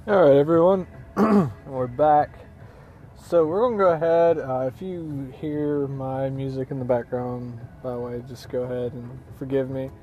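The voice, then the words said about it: Slightly hoarse voice. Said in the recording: “my voice is a little hoarse today. I have been kind of under the weather a little bit”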